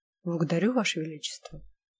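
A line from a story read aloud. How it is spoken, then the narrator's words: Mumble. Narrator (Russian): Пробормотал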